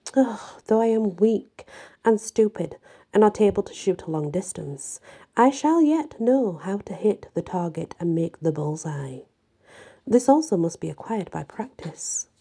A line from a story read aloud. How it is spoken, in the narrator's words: often sighed over this defect and said